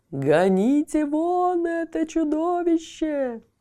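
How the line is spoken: Terrified merchant's yell. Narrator (Russian): завопил купец, сам не свой от страха

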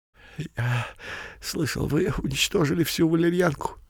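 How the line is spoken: Whispering. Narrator (Russian): зашептал Беляк

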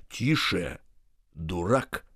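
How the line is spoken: Menacing. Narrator (Russian): сказал Остап грозно

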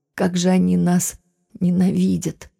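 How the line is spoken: Sad sigh, calmer. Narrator (Russian): Немного успокоившись, печально вздохнула

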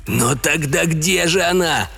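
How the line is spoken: Wailing. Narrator (Russian): взвыл Теннер

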